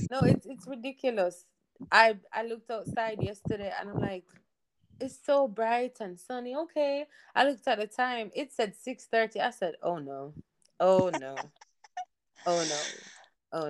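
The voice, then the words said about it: Jamaican accent. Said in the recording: “I love your accent. Some people might think that's actually a Charlotte accent.”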